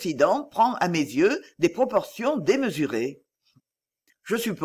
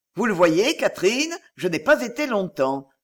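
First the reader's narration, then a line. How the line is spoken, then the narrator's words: Exclaimed. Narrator (French): s'écria M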